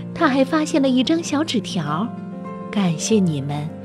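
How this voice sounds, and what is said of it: Quiet, soft-spoken voice. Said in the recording (Chinese): “小声地说”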